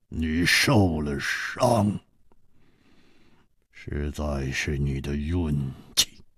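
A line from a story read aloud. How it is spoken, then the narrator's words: Cold, after long silence. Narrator (Chinese): 薛衣人沉默了很久，然后冷冷地说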